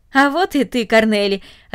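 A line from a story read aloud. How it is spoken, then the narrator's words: Joyful. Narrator (Russian): радостно сказал он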